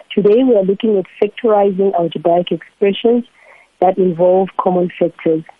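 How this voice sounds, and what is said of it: Congested, lower-pitched voice from cold. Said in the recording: “forgive my voice. Um, I've got a bit of a cold, so it kind of sometimes goes a bit um, lower mm. than it should.”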